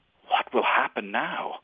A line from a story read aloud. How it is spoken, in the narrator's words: Klaus asked in an awed whisper